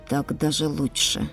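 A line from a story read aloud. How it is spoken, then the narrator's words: Mutter. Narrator (Russian): пробормотал Караш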